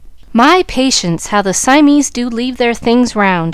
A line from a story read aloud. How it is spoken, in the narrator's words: she exclaimed